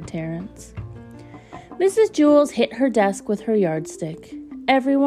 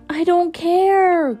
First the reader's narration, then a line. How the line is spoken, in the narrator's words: cried Dana